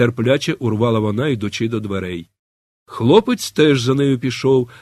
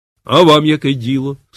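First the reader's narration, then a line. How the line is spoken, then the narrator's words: Girl's stern reply. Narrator (Ukrainian): суворо відповіла дівчина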